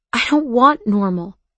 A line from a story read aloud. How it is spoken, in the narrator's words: he said desperately